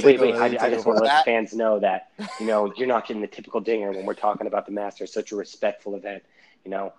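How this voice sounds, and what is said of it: Hushed golf-course commentator voice. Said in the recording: “It sounds like you're talking from the course ... like the line judges ... with the fucking signs that say "quiet, please." ... it sounds like you're like talking on the golf course ... I'm in my Master voice.”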